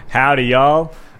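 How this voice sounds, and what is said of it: Questionable put-on American accent. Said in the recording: “That American accent was questionable”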